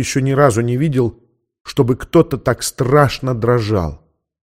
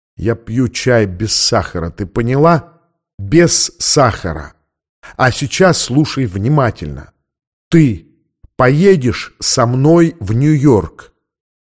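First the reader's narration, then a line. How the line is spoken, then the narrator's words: Slow, through gritted teeth. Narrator (Russian): медленно процедил сквозь зубы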